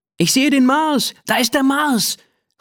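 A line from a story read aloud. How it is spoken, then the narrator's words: Excited call. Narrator (German): ruft Ben begeistert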